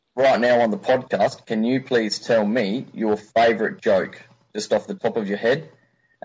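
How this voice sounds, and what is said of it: Australian accent. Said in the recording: “an Australian accent for you guys to compare your own to”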